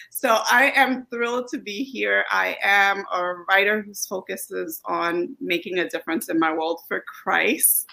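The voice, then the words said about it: Mixed Brooklyn Flatbush West Indian accent. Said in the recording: “the accent that you hear is an amalgamation of this area in Brooklyn called Flatbush. So it's a West Indian, American, Hispanic. So it's pretty much everybody's accent just pulled into something”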